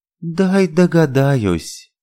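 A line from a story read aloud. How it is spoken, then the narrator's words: Drawl. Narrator (Russian): протянула она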